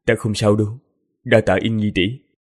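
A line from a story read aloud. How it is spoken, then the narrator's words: Hoarse, forced smile. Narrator (Vietnamese): Tần Mục miễn cưỡng mỉm cười, giọng khàn khàn nói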